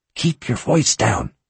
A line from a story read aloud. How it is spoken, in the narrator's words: she whispered angrily